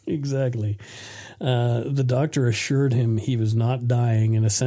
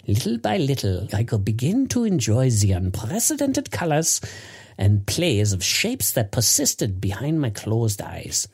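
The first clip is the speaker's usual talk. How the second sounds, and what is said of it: Bad put-on German accent. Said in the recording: “I'll do a really shitty German accent here.”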